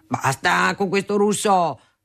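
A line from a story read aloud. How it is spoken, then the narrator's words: Father thundering. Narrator (Italian): tuonava mio padre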